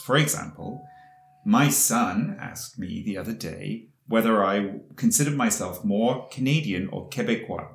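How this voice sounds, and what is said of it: British English accent. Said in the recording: “as everybody can hear, you have a British accent ... hear you would say that you're obviously British”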